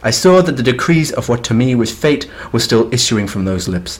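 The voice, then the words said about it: Posh upper-class American accent. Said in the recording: “Every American accent that you do, you go to a more and more exclusive yacht club. ... I like doing that voice.”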